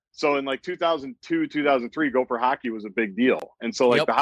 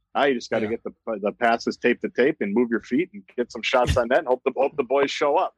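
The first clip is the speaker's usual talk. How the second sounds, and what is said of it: Matt Kowalska hockey-guy impression. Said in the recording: “I had a killer Matt Kowalska impression ... I could do his impression ... it's a hockey guy ... you sounded like every hockey guy that you've ever heard of”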